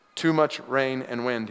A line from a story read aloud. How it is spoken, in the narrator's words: he said